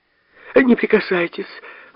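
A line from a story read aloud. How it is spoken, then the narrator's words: Startled exclamation. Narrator (Russian): воскликнула, отшатнувшись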